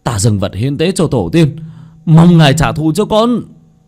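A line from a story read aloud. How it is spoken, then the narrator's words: Glaring shout. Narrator (Vietnamese): anh ta trừng mắt hét lên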